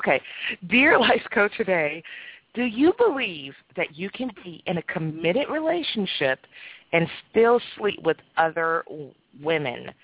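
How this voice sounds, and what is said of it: Hoarse, nearly lost voice. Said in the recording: “I lost my voice.”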